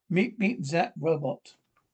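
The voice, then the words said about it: Robotic voice. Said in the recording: “do that robot voice... The robot voice?”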